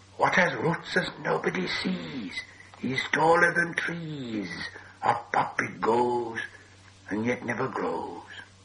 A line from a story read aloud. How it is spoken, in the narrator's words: Gollum hissed